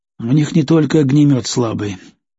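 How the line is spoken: Calm. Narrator (Russian): спокойно ответил

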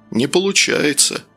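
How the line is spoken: Sad sigh. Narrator (Russian): печально выдохнул Славин голос

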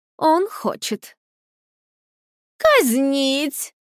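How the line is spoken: Joyful queen's command. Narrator (Russian): радостно приказала королева

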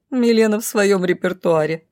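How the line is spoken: Laughing. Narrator (Russian): рассмеялась Роша

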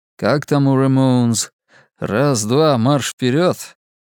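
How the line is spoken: Mirthless. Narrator (Russian): Ему хотелось смеяться, но смеха не было

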